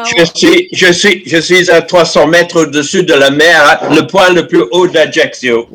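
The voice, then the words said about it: Slight British accent in French. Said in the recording (French): “il y a un petit accent dans votre voix ... je sens un petit accent un peu britannique dans votre voix”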